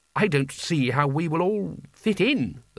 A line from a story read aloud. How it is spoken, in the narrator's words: the bursar said